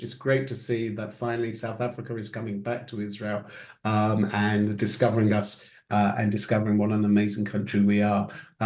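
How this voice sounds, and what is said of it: British accent. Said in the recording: “you're still sounding very British”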